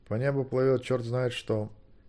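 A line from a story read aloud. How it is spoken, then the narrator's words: Even, explaining tone. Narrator (Russian): ровным голосом втолковал Змейк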